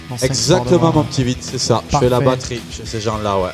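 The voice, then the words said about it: Southern French Toulouse accent. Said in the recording (French): “charmant camarade ... toulousain ... il va pouvoir lâcher son accent à perpétuité”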